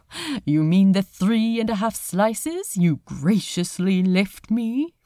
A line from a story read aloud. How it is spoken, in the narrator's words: Aziraphale laughed